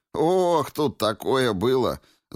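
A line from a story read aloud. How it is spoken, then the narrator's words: Laughing. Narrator (Russian): засмеялся Игорек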